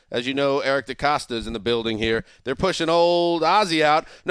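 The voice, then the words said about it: Put-on Southern accent. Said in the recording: “I don't know why I speak with a Southern accent.”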